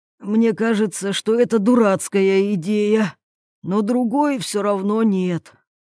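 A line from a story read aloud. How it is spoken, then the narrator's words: Sigh. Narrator (Russian): вздохнул Юрий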